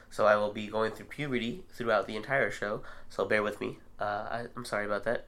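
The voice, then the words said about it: Sick voice, cracking in and out. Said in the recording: “As you can tell, I'm sick, so my voice is in and out.”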